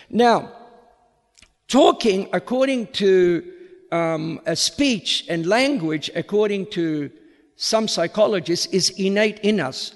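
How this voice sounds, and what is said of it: Vaguely Australian accent, slightly American. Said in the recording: “I'm using an Australian accent. Perhaps not classical Australian, but it is vaguely Australian with a tinge of American”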